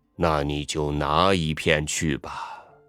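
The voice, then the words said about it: Low, deep voice. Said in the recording (Chinese): “用低沉的声音说”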